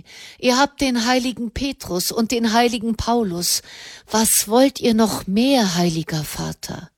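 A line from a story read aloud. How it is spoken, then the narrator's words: Sighing. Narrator (German): Wieder seufzte er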